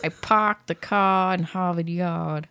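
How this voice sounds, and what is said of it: Poor put-on Boston accent. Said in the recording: “I can't even fake a Boston accent. ... That's pathetic, dude.”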